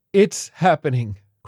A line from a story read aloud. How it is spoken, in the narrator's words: cried the violinist